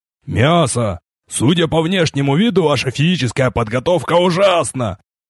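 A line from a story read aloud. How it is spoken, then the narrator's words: Loud pronouncement. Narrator (Russian): громко изрек Капер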